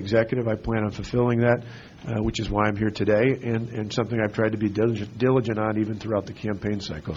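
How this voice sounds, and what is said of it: Hoarse, partly lost voice. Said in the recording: “my voice is a little bit gone”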